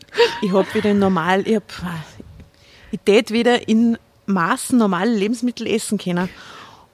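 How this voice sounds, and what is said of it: Put-on Austrian dialect. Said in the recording (German): “Die österreichische Sprache. Sollen wir da mal ein bisschen im Dialekt reden?”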